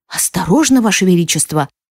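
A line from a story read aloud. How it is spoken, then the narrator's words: Exclaim. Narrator (Russian): воскликнул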